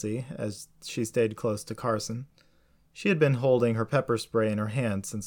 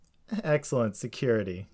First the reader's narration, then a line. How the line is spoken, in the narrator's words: Jessie said with a nervous laugh